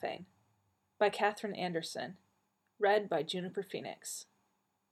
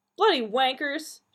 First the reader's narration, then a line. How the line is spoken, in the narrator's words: yelled